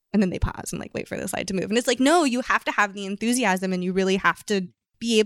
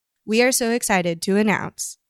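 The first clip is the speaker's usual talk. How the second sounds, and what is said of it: Flat, unenthusiastic CEO announcement impression. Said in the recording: “this is my impression of someone who's like a CEO or, you know, someone who's not really a front-facing public speaking person ... it sounded like he wanted to die”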